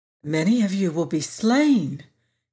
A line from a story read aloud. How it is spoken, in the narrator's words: continued the boy in an awed voice